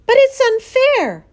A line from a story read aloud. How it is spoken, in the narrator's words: cried Fern